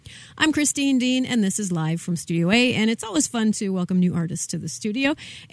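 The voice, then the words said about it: Polished radio announcer voice. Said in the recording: “You've got a great radio voice”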